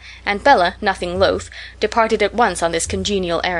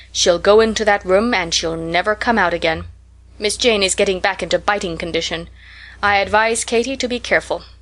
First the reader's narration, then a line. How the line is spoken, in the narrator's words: prophesied Rose solemnly